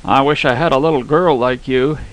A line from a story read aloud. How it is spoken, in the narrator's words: blurted out, stirred by a sudden consciousness of passion for paternity